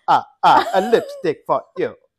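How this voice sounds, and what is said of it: Mock Dracula-style accent. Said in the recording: “Dracula's accent ... You're doing the Italian ... Italian trying to speak in French”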